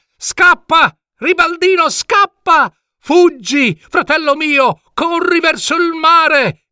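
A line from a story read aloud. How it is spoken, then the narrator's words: Shouted. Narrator (Italian): gridò Adalgino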